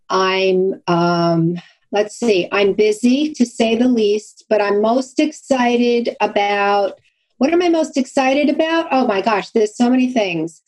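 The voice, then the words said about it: Brooklyn Long Island accent. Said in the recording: “my Brooklyn sort of Long Island accent”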